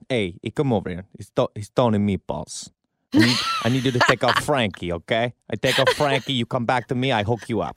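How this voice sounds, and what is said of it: Deeper Italian-American character voice. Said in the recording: “your accent, your Tony Meatball impersonation? ... I have to go a little deeper”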